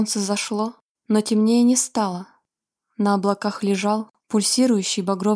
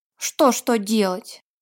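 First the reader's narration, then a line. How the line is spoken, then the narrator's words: Grumbling. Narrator (Russian): проворчал Вилли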